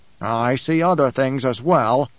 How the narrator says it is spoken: Edric growled

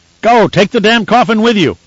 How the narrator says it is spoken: Resser shouted

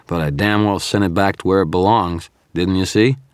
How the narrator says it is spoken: said, my voice slurred with fatigue

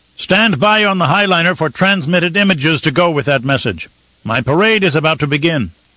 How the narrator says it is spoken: The Baron shouted after her

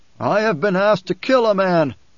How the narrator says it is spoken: a voice shouted from off to the right, a deep voice with siege tones

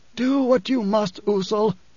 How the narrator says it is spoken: Othame wheezed

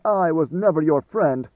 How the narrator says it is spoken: Maneo snapped

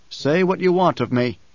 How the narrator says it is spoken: growled

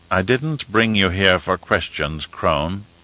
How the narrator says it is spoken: he said in a soft tone

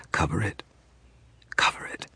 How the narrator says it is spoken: she whispered

